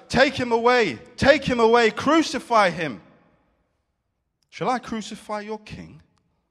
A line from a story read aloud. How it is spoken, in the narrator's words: they shouted